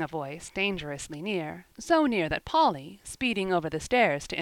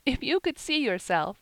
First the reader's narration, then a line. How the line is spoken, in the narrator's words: giggled Polly